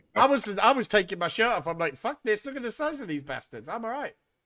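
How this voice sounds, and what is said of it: Welsh accent. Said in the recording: “But your Welsh accent, though.”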